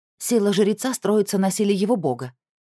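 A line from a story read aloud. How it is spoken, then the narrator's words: Sharp reply. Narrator (Russian): резко ответила Шамхет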